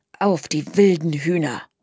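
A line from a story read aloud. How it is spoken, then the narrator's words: Murmured. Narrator (German): murmelte Sprotte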